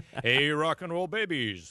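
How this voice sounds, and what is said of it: Impression of radio host Bob Dorr. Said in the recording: “my Bob Dorr impersonation ... That was bad.”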